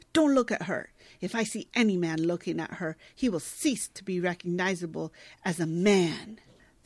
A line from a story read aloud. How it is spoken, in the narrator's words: he snaps at Dave